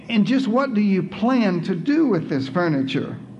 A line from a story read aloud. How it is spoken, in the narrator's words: mother asked